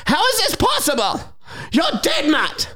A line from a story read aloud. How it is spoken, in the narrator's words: She gasps, the confused old hag